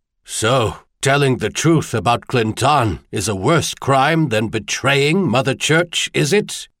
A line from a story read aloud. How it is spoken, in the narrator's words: He asked, his voice thicker as he was forced to breathe through his mouth